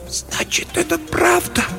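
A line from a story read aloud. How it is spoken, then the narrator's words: Whisper, female. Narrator (Russian): прошептала она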